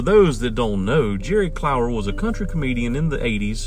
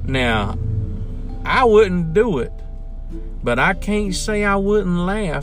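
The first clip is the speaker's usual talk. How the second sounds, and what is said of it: Put-on country accent. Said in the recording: “Y'all like my country accent? ... I throw a little Jerry Clower in there.”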